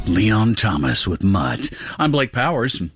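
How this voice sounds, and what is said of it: Put-on semi-sexy voice. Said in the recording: “That was my semi-sexy voice.”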